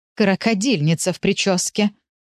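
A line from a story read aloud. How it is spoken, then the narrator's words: Angry snort. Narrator (Russian): гневно фыркнула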